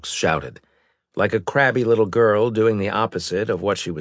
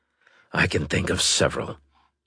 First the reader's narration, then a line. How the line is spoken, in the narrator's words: Stokes muttered